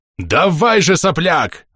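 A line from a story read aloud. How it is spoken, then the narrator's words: Shouting. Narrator (Russian): закричал он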